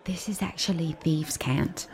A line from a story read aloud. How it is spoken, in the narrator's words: whisper